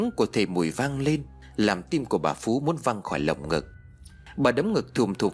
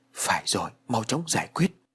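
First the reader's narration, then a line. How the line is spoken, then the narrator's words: Muttering. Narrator (Vietnamese): Bà gật đầu lẩm bẩm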